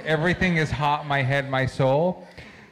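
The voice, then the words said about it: Good put-on German accent, Herzog-like. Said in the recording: “that German accent was pretty good. ... I thought Werner Herzog was here for a second.”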